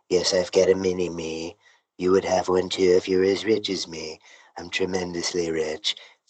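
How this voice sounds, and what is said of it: Imitates another person's voice. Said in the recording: “that voice you're doing right now, it sounds like if you could have like a baby Trump ... he kind of talks like this”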